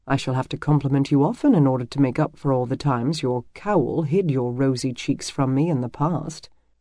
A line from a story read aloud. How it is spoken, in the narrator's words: he murmured playfully